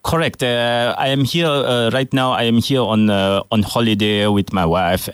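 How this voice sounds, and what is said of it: Terrible put-on French accent. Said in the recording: “Here I am doing a terrible French accent”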